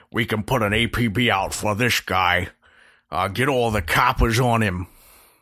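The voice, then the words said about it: Unidentified put-on accent. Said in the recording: “I don't know what that accent was”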